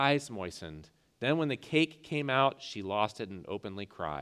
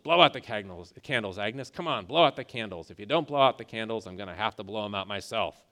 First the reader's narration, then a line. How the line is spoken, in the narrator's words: Harry, the proprietor, mumbled